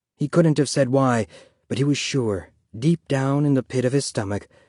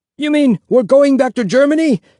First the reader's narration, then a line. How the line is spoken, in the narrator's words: Someone yelled